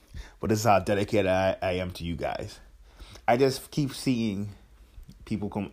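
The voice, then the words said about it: Slightly hoarse, just-woke-up voice. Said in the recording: “my voice sounds a little hoarse or like I just woke up”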